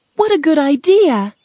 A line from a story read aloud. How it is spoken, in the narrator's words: Dorothy cried